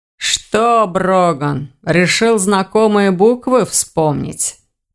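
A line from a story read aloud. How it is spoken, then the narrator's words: Deep bass voice. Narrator (Russian): пробасил голос за спиной Ивара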